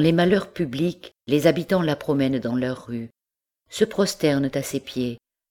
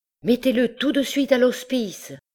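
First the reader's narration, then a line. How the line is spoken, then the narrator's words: Sergeant shouting. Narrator (French): cria un des sergents au cocher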